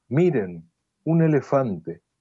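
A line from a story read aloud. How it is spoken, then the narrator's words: Young child exclaiming. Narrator (Spanish): un niño de 4 o 5 años exclama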